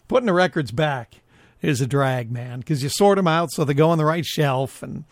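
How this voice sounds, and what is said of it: Slightly gravelly, rough voice. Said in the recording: “my voice sounds a little gravelly from time to time... It kind of feels like I have a cold... I'm a little gravelly sometimes”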